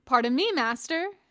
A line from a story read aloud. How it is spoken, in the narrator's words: he exclaimed